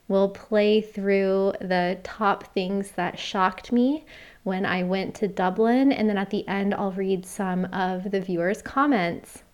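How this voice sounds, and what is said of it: Slightly hoarse, fading voice. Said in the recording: “Seems like I'm losing my voice a little bit. Maybe I need more tea.”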